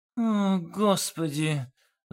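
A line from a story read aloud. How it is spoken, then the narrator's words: Sigh. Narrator (Russian): вздохнул Олег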